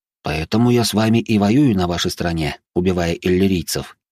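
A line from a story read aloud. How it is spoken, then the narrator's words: Reply with heavy sigh. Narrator (Russian): ответил я и тяжело вздохнул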